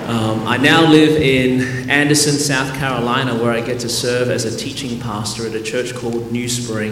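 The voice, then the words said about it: Australian accent. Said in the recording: “Born and raised in Melbourne, Australia. That's the reason my voice is this way.”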